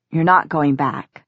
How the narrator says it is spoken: Simon said quietly

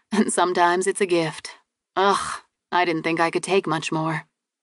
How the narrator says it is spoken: she sighed

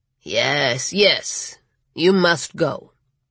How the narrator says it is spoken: Ernesto said in his gravelly voice with a hint of a Latin accent

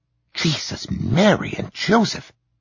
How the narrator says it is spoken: whispered

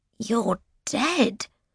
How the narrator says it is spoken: gasps

